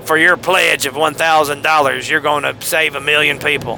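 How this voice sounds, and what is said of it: Lazy televangelist impression. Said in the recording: “That was a lazy impression of a televangelist”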